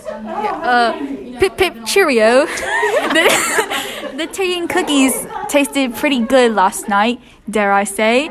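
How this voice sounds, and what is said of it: Put-on British accent. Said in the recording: “British accents ... see who can do the best one”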